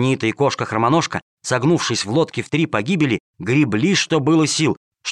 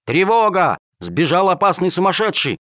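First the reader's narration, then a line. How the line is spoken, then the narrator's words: Guards shouting. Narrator (Russian): стражники кричали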